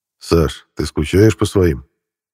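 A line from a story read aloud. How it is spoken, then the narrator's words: Trembling voice. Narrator (Russian): дрогнувшим голосом спросил Денис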